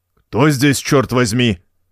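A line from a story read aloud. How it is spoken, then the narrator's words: Angry, then faltering. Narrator (Russian): Сердито начал он и запнулся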